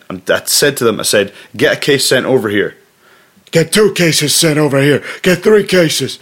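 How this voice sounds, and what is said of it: Imitates another person's voice. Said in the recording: “that was my terrible impression”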